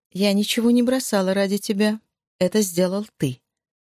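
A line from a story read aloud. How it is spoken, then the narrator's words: Calm, businesslike, as to a child. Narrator (Russian): сказала она так спокойно и деловито, словно разговаривала с ребенком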